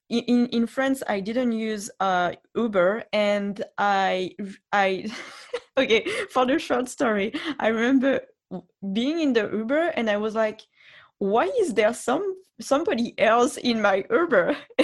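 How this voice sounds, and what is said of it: French accent. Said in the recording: “with my accent, he recognized, oh, she's French”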